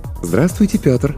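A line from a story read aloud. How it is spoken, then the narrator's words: Cooing pleasant female voice. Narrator (Russian): проворковал приятный женский голос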